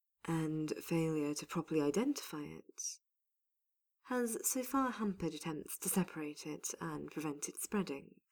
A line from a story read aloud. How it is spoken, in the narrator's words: Solas stated calmly